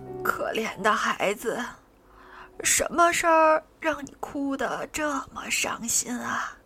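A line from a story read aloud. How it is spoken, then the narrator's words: Soft question. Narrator (Chinese): 她轻声问道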